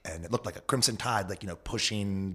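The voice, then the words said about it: Old-timey put-on accent. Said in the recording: “Was your old timey accent.”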